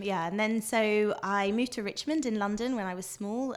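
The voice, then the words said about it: Posh British accent. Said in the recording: “So that's why I sound so British... Proper... I was going to say posh... You've got a lovely... I like your accent.”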